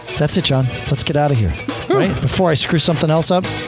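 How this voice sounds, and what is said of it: Manic, high-energy delivery. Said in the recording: “I sound like a maniac ... you're a high energy dude.”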